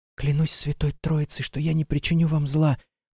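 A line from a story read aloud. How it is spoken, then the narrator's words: Hopeful whisper. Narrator (Russian): прошептала она с надеждой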